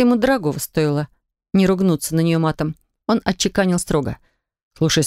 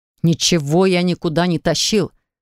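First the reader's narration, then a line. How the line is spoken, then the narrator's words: Angry puffing. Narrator (Russian): запыхтел зло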